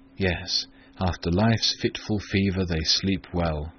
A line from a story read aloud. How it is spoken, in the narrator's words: I muttered